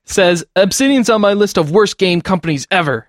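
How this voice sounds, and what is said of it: Mocking complainer accent voice. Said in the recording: “I'm sorry to give you an accent, but when people complain about stuff, that's how I read it in my head.”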